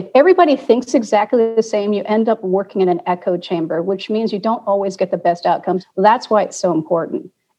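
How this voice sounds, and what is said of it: Passionate, rising voice. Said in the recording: “I'm starting to get very passionate because my voice is rising”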